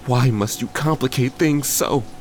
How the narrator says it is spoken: She cried

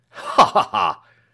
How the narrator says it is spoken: laughed the doctor thoughtfully

